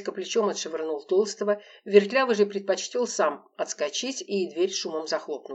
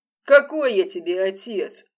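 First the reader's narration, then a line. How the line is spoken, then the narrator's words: Gruff growl. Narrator (Russian): рыкнул дядька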